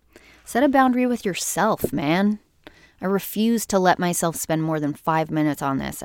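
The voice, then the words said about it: Raspy voice. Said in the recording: “It's very early. That's why my voice is raspy.”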